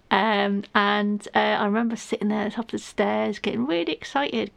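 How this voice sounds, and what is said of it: Manchester English accent. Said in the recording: “I'm from Manchester originally. Can't tell by the accent, I know.”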